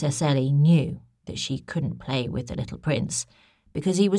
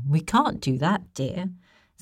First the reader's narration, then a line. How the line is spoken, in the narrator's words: said the queen